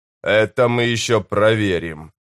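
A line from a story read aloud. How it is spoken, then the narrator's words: Growled. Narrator (Russian): прорычал Корбаладом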